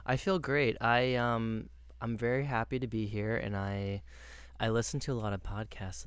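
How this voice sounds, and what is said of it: Smooth, soothing radio-style voice. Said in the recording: “you have a really good radio voice ... it's really soothing ... it's just my normal talking voice”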